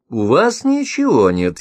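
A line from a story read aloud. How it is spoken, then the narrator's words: Sarcastic. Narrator (Russian): язвительно сообщила Томила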